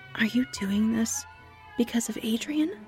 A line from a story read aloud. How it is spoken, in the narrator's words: I whispered to her